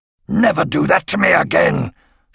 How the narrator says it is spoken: she snapped

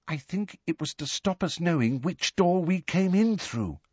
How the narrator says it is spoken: said Ginny in a hushed voice

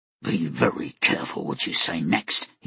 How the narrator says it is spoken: he said through clenched teeth

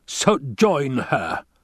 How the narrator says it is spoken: the Baron spat

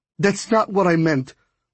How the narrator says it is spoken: Brooks said hastily

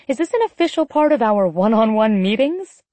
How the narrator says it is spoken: I laughed, my heart threatening to burst out of my skin

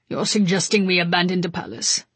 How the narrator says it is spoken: Mikko asked in his low rumble

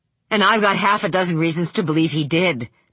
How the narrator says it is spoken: Vic said

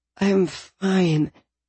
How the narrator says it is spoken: I slurred

